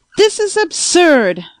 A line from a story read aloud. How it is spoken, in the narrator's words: I shouted